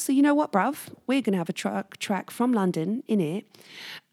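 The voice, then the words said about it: Bad put-on London accent. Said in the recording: “Not my best London accent, that's for sure. ... sorry for the bad London accent”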